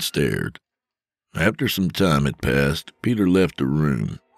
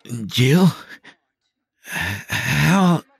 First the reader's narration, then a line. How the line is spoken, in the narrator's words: Peter stammered